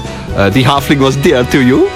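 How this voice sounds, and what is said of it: Sinister fantasy villain voice. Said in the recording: “I do a pretty good Mouth of Sauron from Return of the King.”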